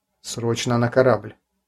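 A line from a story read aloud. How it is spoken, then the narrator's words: Quiet, tense. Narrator (Russian): негромко, но напряженным голосом проговорил инженер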